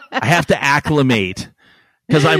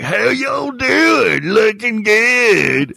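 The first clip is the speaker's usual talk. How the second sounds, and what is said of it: Exaggerated Texan accent. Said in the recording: “I'm way more Texas than the people of Texas ... we don't all talk like that ... constantly mimicking them”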